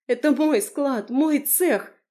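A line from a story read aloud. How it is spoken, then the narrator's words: Straining shout. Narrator (Russian): закричала, пытаясь прорваться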